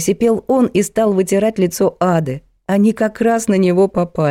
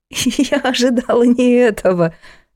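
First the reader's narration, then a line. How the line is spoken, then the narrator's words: Laughing. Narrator (Russian): рассмеялась она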